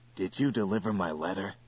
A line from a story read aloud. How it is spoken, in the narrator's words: whispered Care